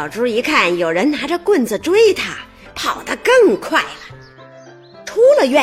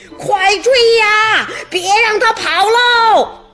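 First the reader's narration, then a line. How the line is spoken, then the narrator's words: Shouting while chasing. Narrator (Chinese): 一边追还一边喊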